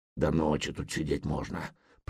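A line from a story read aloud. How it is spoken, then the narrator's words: Grumbling. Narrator (Russian): проворчал Гудмунд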